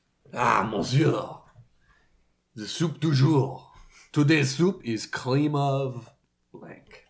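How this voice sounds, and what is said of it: Put-on French accent. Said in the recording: “the French accent”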